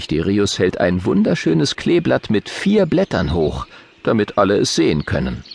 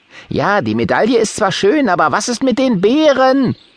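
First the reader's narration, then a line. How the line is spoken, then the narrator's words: Loud calling out. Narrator (German): ruft Johannes Bär laut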